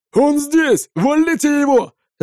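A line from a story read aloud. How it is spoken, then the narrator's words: General shouting. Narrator (Russian): закричал генерал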